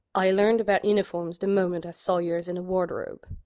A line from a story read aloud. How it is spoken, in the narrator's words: Sherlock murmured